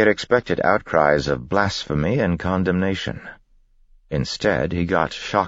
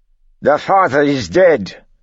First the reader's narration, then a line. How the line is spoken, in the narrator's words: snapped